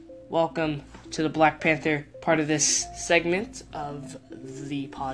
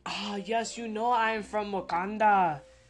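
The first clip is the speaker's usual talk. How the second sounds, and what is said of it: Bad put-on Wakandan accent. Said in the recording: “That accent was completely terrible.”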